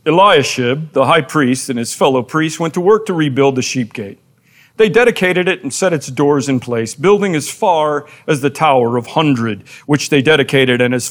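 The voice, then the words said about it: Mock professorial reading voice. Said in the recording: “my professor voice”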